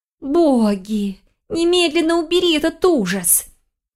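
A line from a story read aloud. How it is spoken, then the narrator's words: Muffled moan. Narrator (Russian): Она закрыла лицо книгой и застонала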